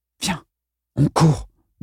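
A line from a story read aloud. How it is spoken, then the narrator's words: Murmured. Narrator (French): murmura Dale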